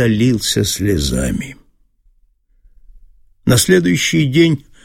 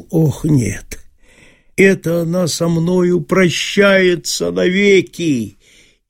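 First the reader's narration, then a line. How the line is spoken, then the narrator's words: Groaning. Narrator (Russian): подумал Чертопханов, но тут же простонал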